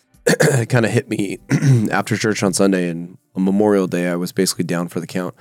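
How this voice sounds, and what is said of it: Slightly strange voice from a cold. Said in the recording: “I was like 80% over a cold. So if you notice, my voice is a little strange.”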